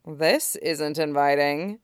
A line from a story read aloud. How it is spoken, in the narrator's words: Shizuru muttered